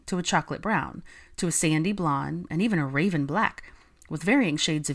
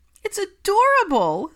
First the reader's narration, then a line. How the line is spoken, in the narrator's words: squealed Hermione